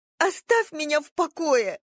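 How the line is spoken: Choked sobbing. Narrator (Russian): Рыдания опять вернулись, бились в горле, душили

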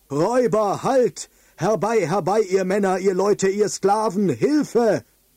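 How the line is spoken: Loud bellowing. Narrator (German): Mit diesen laut gebrüllten Worten

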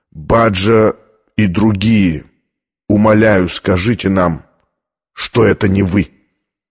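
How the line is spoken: Heartbreaking old man's whisper. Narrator (Russian): произнес старый кардинал душераздирающим шепотом

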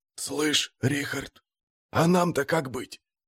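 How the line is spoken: Barely audible whistling whisper. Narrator (Russian): даже не шепот, свист на грани слышимости

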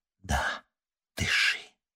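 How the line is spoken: Quiet. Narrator (Russian): тихо проговорила она

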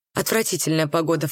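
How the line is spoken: Snorted. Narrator (Russian): фыркнула она

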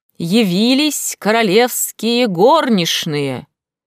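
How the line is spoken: Loud trained announcement. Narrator (Russian): дворецкий зычным, хорошо поставленным голосом объявил

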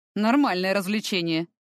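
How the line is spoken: Snorting reply. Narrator (Russian): хмыкнул он в ответ

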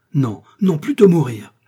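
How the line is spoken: Queen's imperious indignant exclamation. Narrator (French): s'écria la reine, chez laquelle se révoltait le sang impérieux de l'Espagnole et de l'Autrichienne

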